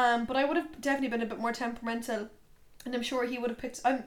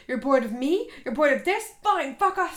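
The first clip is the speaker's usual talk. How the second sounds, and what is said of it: Screaming loudly. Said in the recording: “I'm screaming into your ears.”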